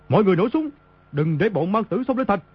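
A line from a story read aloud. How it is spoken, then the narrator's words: Panicked loud shout. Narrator (Vietnamese): Y trong lúc hoảng sợ quát lớn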